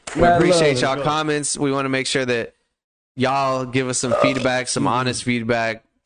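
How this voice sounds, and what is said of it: Flat, monotone, unexcited delivery. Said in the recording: “Can you be excited about closing out, please? ... monotone as fuck ... raise your voice ... You did it so boring ... I almost yawned”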